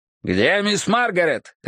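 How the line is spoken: Barked. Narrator (Russian): рявкнул я

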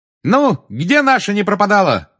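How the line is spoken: Shouting. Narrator (Russian): крикнула Тонкс

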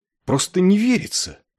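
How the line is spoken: Exclaiming, trembling with indignation. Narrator (Russian): воскликнул Клевенджер, и его голос задрожал от удивленного негодования

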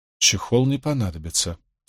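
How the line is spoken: Quiet repetition. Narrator (Russian): тихо повторил Мэтью

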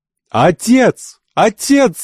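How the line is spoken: Young woman shouting. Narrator (Russian): закричала девушка

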